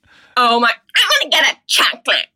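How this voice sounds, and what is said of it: Sassy teenage voice. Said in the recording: “that impression ... You were a sassy kid.”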